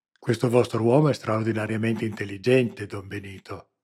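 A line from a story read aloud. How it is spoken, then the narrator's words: Murmured across table. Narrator (Italian): mormorò Capitan Vilano attraverso la tavola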